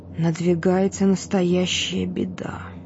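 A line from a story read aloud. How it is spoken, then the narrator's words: Said quietly. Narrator (Russian): тихо сказал он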